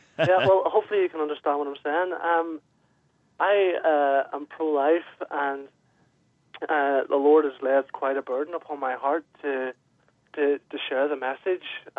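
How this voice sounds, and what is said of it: Irish accent. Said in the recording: “Let's get an Irish accent joining ... We're just drinking in the accents”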